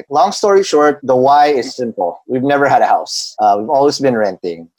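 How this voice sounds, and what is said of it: Polished accent, not usual voice. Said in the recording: “Hence the accent. I don't sound like this on a normal day.”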